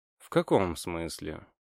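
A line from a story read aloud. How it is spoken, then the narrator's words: Lazy question. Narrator (Russian): лениво спросил я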